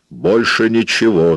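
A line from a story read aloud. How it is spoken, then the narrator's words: Angry. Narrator (Russian): сказала она сердито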